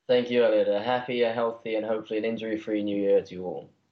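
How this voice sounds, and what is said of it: English accent. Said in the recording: “the lone um, uh, English accent on the show today ... your your lovely accent”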